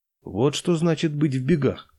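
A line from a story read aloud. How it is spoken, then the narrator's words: Calm reply. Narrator (Russian): спокойно ответил неприметный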